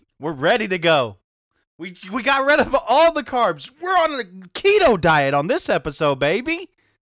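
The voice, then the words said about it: Yelling, high-energy voice. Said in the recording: “He's yelling”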